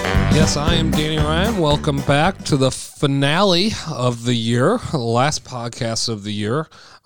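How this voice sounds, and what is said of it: Hoarse, nearly lost voice. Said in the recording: “My voice isn't here”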